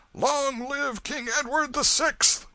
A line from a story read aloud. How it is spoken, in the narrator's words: another cry shook the night with its far-reaching thunders